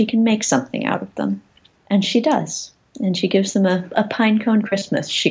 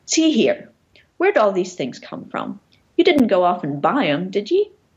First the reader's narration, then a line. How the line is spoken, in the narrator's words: Miss Stane laughed